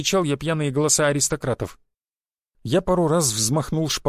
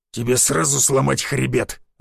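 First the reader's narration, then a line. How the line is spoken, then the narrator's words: Beast growling. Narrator (Russian): зарычал зверь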